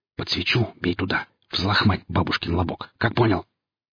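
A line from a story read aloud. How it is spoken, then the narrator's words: Whispered. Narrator (Russian): Вятлов шепнул ему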